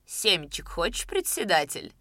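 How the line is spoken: Laughing low female voice. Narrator (Russian): спросила она смеющимся низким голосом

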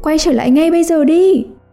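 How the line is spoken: Mother yelling. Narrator (Vietnamese): mẹ anh gào lên

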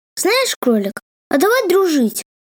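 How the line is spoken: Cheerful. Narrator (Russian): весело сказала Майя

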